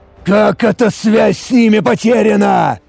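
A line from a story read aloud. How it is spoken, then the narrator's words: Dismayed near growl. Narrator (Russian): Обескураженно практически прорычал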